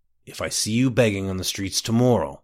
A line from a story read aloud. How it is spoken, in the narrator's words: the man growled